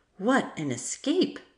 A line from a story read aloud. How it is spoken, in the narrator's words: exclaimed Matilda